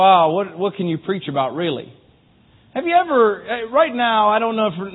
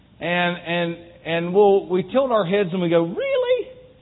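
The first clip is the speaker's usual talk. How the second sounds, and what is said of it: High-pitched incredulous voice. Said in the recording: “do a high pitched voice. That's as good as I can do.”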